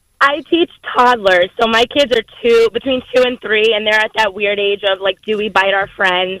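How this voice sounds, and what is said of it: Hoarse, laryngitis-strained voice. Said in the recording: “laryngitis teacher voice”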